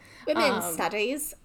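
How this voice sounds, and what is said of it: Put-on British accent. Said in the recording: “You really have to say that in a British accent.”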